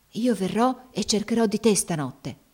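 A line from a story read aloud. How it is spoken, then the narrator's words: Close whisper. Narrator (Italian): le sussurrò facendosele accanto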